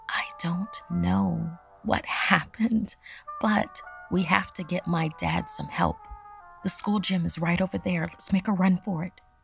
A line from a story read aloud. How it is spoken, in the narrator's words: Ashlyn whispered to me